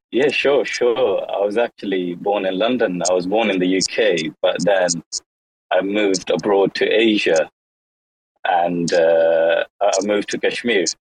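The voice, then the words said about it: Hard-to-place South African-British accent. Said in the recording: “that accent is one of the most difficult to work out in the world... maybe born in South Africa, moved to the UK... that's a riot... one of the hardest accents I've ever heard in my life”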